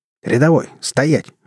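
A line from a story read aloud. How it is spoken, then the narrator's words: Barked command. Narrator (Russian): рявкнул Ложкин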